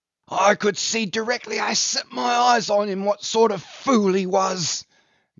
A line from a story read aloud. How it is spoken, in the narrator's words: gasped the dying Brown